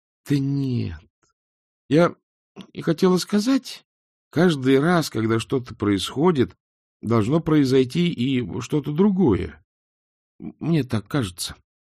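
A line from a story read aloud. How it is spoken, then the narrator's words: Uncertain. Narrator (Russian): неуверенно произнесла Эск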